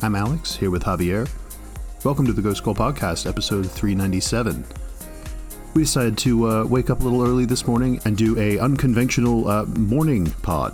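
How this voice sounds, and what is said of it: Slightly raw morning voice. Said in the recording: “my voice sounds a little raw”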